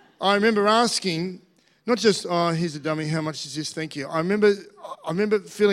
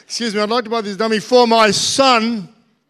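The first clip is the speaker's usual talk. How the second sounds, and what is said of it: Raised, loud proud voice. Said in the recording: “I may have raised my voice.”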